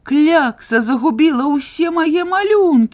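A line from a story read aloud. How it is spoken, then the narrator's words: Exclaimed. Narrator (Belarusian): усклікнуў мастак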